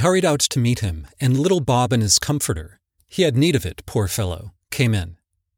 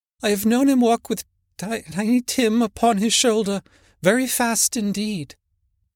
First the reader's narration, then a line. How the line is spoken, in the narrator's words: she said, in a steady, cheerful voice that only faltered once